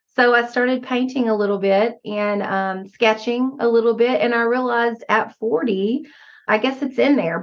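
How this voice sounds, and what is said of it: Southern American accent. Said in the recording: “your beautiful Southern accent”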